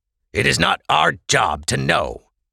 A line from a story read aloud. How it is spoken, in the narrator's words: snapped the hooded man